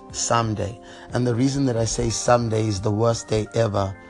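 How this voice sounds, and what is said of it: Speaks with a noticeable accent. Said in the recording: “Had to spell it because of my accent.”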